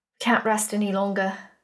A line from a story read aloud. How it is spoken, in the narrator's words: Ozarin said quietly